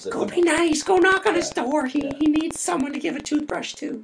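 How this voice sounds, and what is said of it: Imitated mom voice. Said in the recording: “Is that your mom voice? ... That was my mom voice. ... Not bad. Could use a little work”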